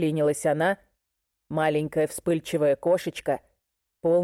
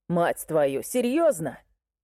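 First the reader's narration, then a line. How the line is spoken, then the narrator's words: Laughing. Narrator (Russian): Сначала Брайс засмеялся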